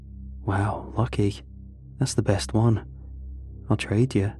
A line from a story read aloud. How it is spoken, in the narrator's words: muttered